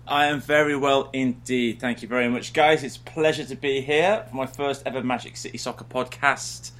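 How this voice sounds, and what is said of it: Welsh British accent. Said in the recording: “Everyone's favorite Welshman ... a guy with a British accent ... I've got the accent.”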